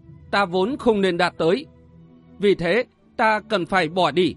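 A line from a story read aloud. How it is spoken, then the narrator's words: Cold. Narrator (Vietnamese): Sở Vân lạnh lùng nói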